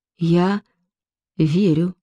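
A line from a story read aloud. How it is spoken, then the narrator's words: Barely audible, woman. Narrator (Russian): чуть слышно произнесла она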